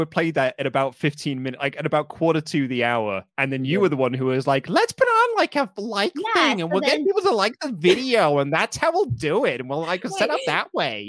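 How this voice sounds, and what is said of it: Impression of a co-host. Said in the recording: “your impression of me? ... pretty spot on”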